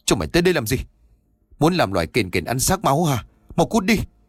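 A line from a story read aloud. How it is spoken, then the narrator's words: Angry scolding shout. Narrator (Vietnamese): ông Bình Mặc quát mắng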